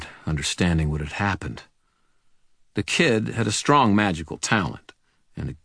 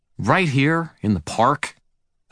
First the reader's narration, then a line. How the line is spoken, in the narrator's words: demanded in an aggrieved tone